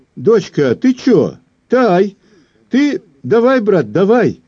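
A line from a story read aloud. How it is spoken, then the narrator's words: Cheerful exclamation. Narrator (Russian): бодренько воскликнул командор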